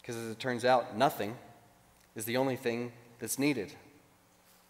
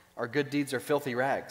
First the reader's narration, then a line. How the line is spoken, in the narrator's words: he says